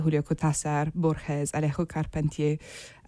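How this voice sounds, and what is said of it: Names spoken in French accent. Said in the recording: “I said that in a French accent.”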